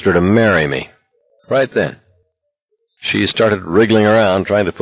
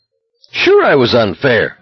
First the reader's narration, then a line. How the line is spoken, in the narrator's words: McFreeze said savagely